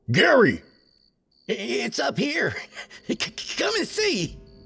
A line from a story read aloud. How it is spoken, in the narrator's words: replied in a manic voice